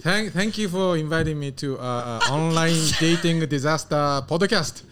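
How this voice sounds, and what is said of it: Exaggerated thick foreign accent. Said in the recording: “I hear your accent. ... That is not how you really talk. ... if I tell people I have a thick accent, they cannot laugh at me anymore. So I speak a little better than that.”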